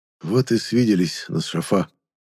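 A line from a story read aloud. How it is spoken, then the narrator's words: Quiet. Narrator (Russian): негромко произнес я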